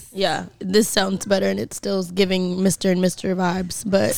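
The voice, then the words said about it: Raspy, nearly lost voice. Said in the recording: “my voice is almost gone, so just bear with me today ... It sounds better than it was ... I'm obsessed with her raspy voice.”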